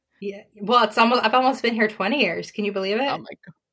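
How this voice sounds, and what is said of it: Strong American accent. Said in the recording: “you left with an Australian accent, and you've you now every time I talk to you, you've got such a strong American accent.”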